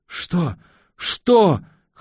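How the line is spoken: Hoarse shout. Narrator (Russian): хрипло кричит она

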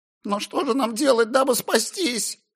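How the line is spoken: Feigned trembling whine. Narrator (Russian): Старательно дрожащим голосом проныл роб

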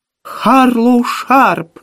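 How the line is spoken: Shouting. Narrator (Russian): закричала Кэрол

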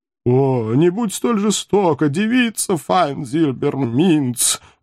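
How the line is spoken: Howled. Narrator (Russian): взвыл наркозависимый философ

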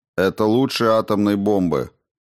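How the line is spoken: Plain. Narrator (Russian): спросил президент

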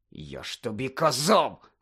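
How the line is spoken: Hissing. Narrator (Ukrainian): засичав Рон на Герміону

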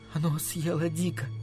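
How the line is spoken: Whisper. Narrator (Russian): прошептала она

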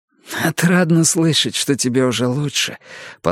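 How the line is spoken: Hoarse voice. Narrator (Russian): послышался хриплый голос Марго

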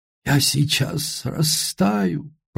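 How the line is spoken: Moan. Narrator (Russian): простонал этот друг

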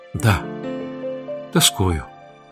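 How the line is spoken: Muffled reply. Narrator (Russian): глухо ответила гречанка

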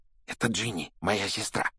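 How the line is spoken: Whisper. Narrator (Russian): шепнул Рон Гарри

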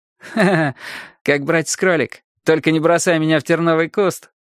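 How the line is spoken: Laughing. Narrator (Russian): засмеялся Май

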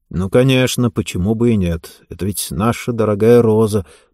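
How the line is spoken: Muttering. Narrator (Russian): буркнул Карл

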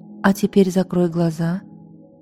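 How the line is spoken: Soft and tender. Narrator (Russian): все так же мягко и ласково сказала она

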